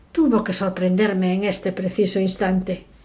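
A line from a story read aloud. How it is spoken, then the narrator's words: Muttered through teeth. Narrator (Spanish): murmuró entre dientes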